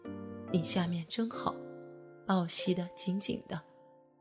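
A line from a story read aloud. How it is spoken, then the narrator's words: Soft whisper. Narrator (Chinese): 阿兰轻声在我身边说道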